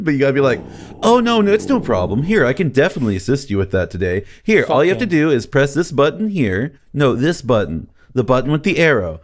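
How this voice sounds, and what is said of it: Overly sweet customer service voice. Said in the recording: “customer service voice ... clearly just baby talk for boomers”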